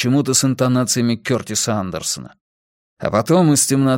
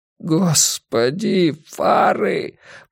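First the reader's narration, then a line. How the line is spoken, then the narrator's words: Groaning. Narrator (Russian): простонал Гарри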